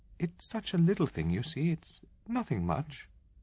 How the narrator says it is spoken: she said unsteadily

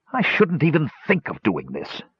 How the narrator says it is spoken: began through gritted teeth

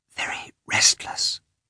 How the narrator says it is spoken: said the head nurse in a whisper

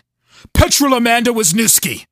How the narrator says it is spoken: Dan yelled

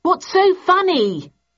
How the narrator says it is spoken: I yelled

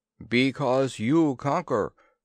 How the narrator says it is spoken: was the booming reply

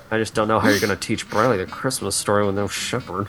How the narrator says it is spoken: she murmured

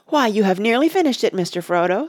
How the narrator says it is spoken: Sam exclaimed

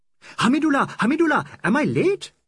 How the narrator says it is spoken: he cried

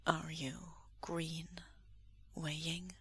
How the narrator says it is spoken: Lan Wangji asks softly

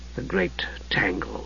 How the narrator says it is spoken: Raistlin murmured

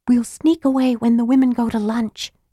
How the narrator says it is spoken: she whispered

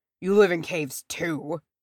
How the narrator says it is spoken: he snapped

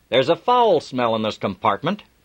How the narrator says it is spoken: He sniffed loudly, and he said

